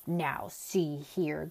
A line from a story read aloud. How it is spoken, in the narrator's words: growled Tok angrily